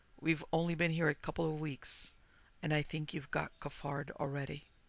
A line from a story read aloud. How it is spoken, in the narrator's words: said the officer quietly